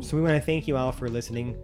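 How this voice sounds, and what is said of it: Character voice. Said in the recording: “I'm still doing my Felix voice.”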